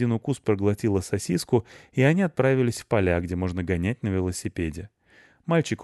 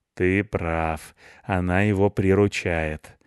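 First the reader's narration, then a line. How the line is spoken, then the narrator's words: Gloomy. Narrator (Russian): мрачно сказал Рыжопиус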